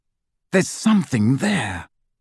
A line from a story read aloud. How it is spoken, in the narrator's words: whispered